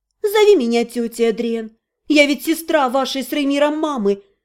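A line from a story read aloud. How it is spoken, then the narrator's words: Sad smiling voice. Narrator (Russian): Грустно улыбнулась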